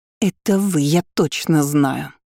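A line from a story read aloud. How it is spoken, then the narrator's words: Hateful breathy hiss. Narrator (Russian): с ненавистью выдохнула Армелия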